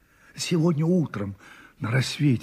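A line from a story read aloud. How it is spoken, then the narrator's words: Muttered. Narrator (Russian): бормотала Марья Власьевна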